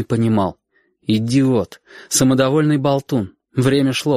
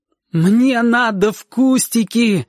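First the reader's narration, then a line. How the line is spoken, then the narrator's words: Shouted. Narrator (Russian): выкрикнула Сашка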